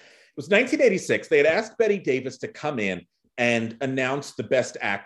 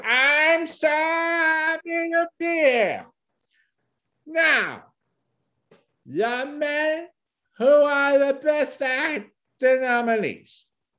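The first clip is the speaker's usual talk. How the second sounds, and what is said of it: Imitates an older actress's voice. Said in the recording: “I can't do an actual Bette Davis impression. I can only do Bette Davis older in her life.”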